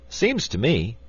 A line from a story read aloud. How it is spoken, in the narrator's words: said the wizard in a cheerful voice